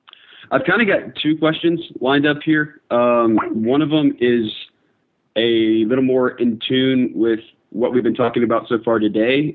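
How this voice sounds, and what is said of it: Voice sounds sick. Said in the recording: “I'm a little sick, so sorry about my voice.”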